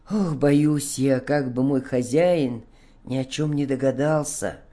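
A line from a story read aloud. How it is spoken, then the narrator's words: Sighing reply. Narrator (Russian): вздохнув, ответил Бобик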